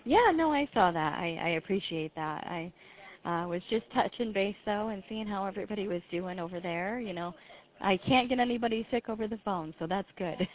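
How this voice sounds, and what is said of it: Sick-sounding voice. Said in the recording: “A little under the weather ... Can you hear it in my voice? Do I sound different? ... Are you sick? ... A little bit, yeah.”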